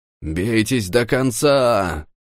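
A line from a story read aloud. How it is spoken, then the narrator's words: Roar. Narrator (Russian): взревел он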